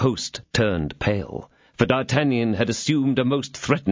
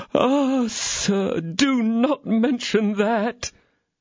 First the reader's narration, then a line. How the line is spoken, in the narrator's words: replied the host in a most lamentable tone of voice